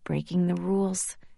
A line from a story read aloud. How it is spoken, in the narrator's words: I murmured